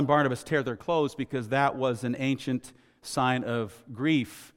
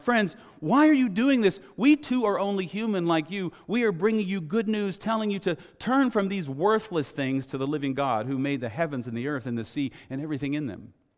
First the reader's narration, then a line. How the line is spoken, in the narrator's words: the apostles, Barnabas and Paul, shouting